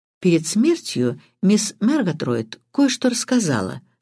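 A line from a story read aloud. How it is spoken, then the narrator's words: Calm reply. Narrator (Russian): спокойно ответил Крадок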